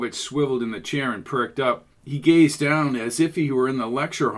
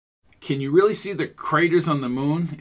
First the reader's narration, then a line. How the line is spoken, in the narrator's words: asked Jones